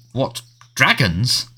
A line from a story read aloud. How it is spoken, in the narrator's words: spluttered the Prime Minister